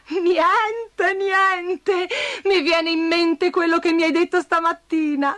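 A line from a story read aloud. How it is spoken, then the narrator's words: Laughing. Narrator (Italian): rise Bastoncello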